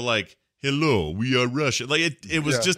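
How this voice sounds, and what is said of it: Mock Russian accent. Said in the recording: “Russian accent”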